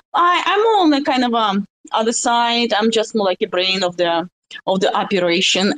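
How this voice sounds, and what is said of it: Russian accent. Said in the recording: “don't be scared from my, Rus- of my russian accent”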